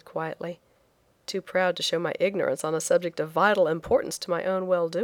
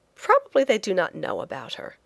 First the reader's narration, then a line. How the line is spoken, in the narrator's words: I said more cheerfully